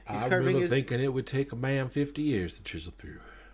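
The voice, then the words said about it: Morgan Freeman impression. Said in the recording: “That's the last time I'm ever going to try to do a Morgan Freeman ... I'm offended that you did that voice”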